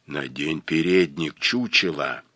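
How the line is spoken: Gloomy droning. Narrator (Russian): мрачно загудела мадам Шранк

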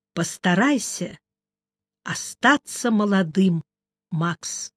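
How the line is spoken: Quiet. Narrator (Russian): тихо сказал

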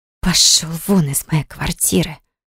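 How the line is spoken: Predatory hiss. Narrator (Russian): Хищно так зашипела

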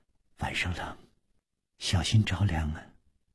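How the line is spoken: Soft, gentle. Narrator (Chinese): 柔声说

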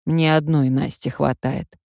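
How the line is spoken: Grim. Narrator (Russian): Ленька мрачно сказал

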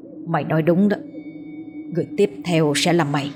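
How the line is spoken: Mutter. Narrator (Vietnamese): Nó lẩm bẩm trong miệng

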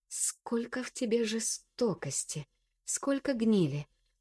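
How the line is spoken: Quiet contemptuous speech. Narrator (Russian): С презрением тихо произношу

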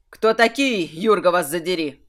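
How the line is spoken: Yelling young man. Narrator (Russian): заорал самый молодой из незваных гостей

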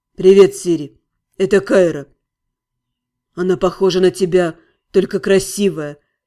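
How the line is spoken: Mutter. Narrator (Russian): пробормотал Сири

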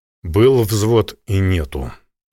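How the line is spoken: Militiaman speaking, then sighing. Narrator (Russian): промолвил ополченец и вздохнул

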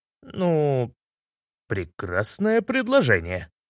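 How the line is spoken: Overly cheerful exclamation. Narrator (Russian): слишком весело воскликнул я

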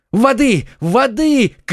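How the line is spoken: Shouting. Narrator (Russian): кричал Д'Артаньян

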